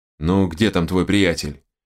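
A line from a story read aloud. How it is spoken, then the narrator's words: Asked again. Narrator (Russian): в очередной раз спросил Терехов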